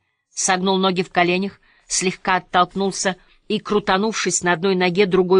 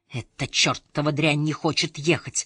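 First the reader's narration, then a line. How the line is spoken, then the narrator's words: Whisper. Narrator (Russian): прошептал Свен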